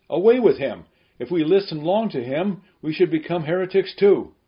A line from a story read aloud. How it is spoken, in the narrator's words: so that even they were moved and cried out